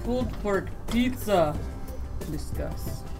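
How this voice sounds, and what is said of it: Put-on accent that sounds Russian. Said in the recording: “read that phrase as Arnold Schwarzenegger ... You sound Russian.”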